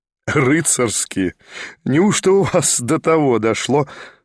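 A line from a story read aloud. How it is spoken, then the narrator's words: Laughing. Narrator (Russian): смеялся Николя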